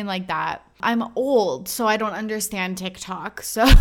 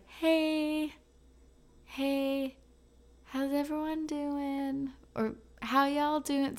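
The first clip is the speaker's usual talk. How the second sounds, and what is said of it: Imitates a TikTok creator's greeting voice. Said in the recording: “I feel like I am that TikTok where it's like ... that was my best impression”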